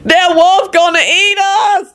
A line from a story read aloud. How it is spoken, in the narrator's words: Lucretia wailed